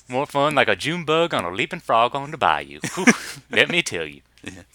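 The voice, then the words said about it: Put-on Southern accent. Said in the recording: “we've gotten into these Southern accents.”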